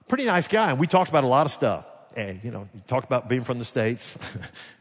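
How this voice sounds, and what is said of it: Alabama American accent. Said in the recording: “Anytime somebody would hear my accent, they say, "You're not from here, right? Are you from the States?" ... I said, "Alabama."”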